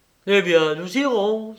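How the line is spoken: Triumphant exclamation. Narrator (French): s'écria Jean triomphant

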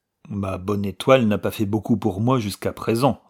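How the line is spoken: Cold reply. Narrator (French): répondit froidement Hawkhurst

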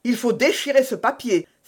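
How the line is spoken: Dread-filled exclamation. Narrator (French): s'écria D'Artagnan, qui semblait lire sa sentence de mort

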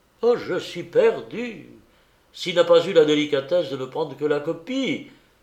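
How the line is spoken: Alarmed exclamation. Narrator (French): s'écria le peintre en devinant le vol

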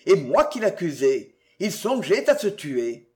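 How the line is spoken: Exclamation. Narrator (French): s'écria-t-il

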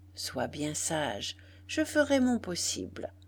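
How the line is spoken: Murmur. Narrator (French): murmura-t-elle

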